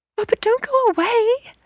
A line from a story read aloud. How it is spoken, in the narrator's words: they cried